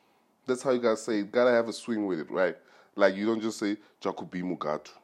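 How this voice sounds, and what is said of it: Usual voice. Nothing is said of it.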